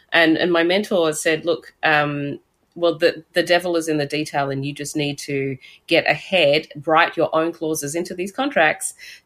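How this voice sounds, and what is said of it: Australian accent. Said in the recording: “this Australian accent”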